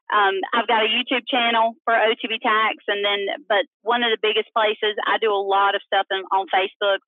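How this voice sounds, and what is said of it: Speaks with a noticeable accent. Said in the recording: “For those of you that don't understand my accent”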